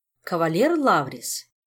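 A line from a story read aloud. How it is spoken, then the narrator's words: Cold regal inquiry. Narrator (Russian): холодно осведомилась королева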